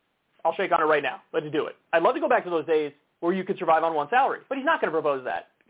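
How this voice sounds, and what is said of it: Usual voice. Nothing is said of it.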